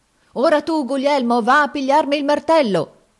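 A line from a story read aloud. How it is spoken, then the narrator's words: Shouting. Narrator (Italian): gridava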